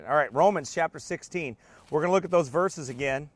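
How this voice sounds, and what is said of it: Strained, fading hoarse voice. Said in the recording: “I'm going to lose my voice ... I'm losing my voice”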